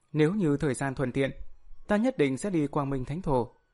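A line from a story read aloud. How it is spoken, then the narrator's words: Smiling. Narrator (Vietnamese): Ninh Tiểu Xuyên mỉm cười nói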